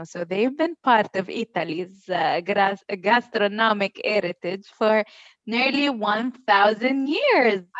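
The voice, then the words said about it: Put-on Italian accent. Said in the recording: “I really enjoy that accent, madame... I thoroughly enjoyed you giving me an Italian accent.”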